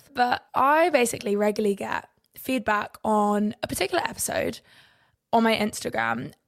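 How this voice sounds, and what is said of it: Slightly out of breath. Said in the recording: “I just did a few handstands, so I'm actually a little bit out of breath.”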